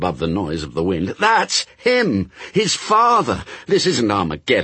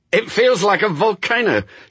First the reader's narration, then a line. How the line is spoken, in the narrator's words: shouted Newt